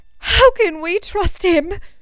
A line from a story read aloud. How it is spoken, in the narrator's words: she cried